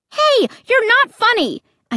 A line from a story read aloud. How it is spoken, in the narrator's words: I screamed angrily